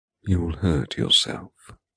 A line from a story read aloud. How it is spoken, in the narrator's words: he whispers in my ear